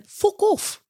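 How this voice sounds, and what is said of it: Put-on British accent. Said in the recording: “play homage to his great British accent”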